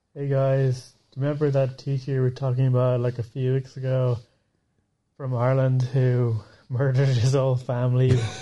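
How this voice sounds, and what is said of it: Put-on Irish accent. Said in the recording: “I'm speaking an Irish accent”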